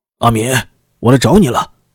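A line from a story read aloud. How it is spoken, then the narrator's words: Loud booming shout. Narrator (Chinese): 御史宝林扯着大嗓门喊道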